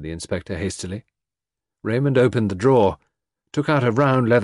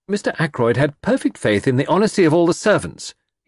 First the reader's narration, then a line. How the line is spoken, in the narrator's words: he said hotly